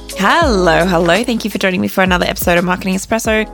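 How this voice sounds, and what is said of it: Stuffed-up, tired, flat voice. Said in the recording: “I'm a bit tired today ... my voice is a bit stuffed up at the moment ... a little bit flatter than usual”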